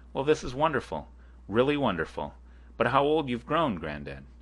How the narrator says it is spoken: Makar Semyonich ... exclaimed

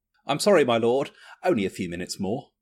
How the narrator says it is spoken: the servant replied, nervously and hastily

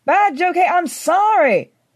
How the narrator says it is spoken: I shouted

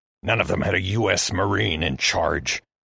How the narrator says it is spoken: Heston hissed

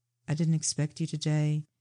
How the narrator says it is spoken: Breepit said in an emotionless voice

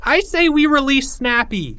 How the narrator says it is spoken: cried another

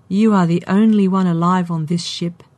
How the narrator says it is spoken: the sphere said sadly

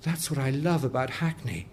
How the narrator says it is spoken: the old lady whispered

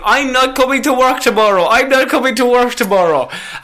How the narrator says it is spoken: Natalia Escudero screamed into the camera saying

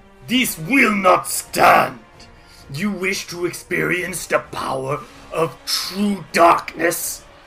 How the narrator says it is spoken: he snarls and says

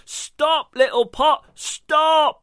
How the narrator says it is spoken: bellowed as loud as he could

